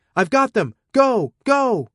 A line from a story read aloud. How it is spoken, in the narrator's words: Arata was shouting